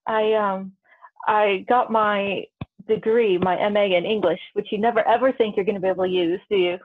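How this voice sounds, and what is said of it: American accent, not British. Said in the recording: “are you American? Because you do not have a British accent at all.”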